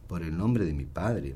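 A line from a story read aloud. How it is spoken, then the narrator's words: Murmuring. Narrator (Spanish): murmuró David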